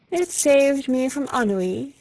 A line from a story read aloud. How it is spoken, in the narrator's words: answered, yawning